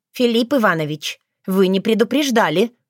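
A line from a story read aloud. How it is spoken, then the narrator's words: Stern. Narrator (Russian): строго покосилась на него Таня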